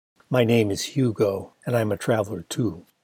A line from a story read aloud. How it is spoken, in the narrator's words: In his deep, melodious voice, he said